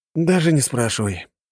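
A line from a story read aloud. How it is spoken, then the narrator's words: Sighing. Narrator (Russian): вздохнул я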